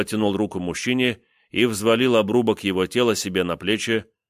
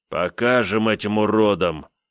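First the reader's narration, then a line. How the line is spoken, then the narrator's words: Angry growl near ear. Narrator (Russian): прорычала над ухом злая угроза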